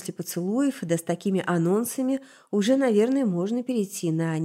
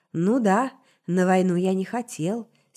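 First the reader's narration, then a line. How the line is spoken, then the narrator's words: Calm admission. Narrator (Russian): спокойно признался Сибель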